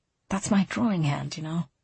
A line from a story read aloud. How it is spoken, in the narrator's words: he leaned toward her and whispered